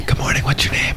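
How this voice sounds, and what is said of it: Whispering. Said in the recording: “We are whispering... I love that you're like whispering”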